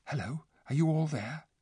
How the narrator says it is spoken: a voice whispered

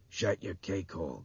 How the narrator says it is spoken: Gaffney growled

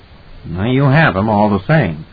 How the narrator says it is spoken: Edmund said dryly

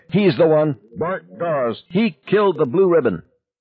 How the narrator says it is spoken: someone, Steve Ordinary most likely, would scream

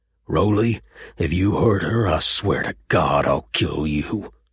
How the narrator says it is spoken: Buck snarled, his voice husky and trembling with rage

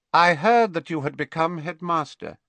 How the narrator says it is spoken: said, and his voice was slightly higher and colder than it had been

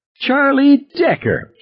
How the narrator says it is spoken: she squealed

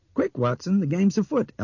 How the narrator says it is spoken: Albert said and laughed crazily

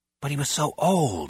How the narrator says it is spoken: Henry whispers

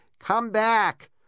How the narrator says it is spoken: cried

